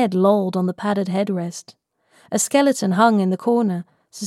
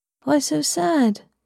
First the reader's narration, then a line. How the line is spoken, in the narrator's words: I mumbled